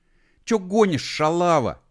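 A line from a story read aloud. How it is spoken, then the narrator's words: Offended shout. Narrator (Russian): обиженно закричал на нее Костик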